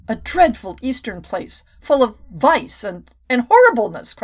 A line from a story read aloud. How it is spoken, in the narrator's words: cried Miss King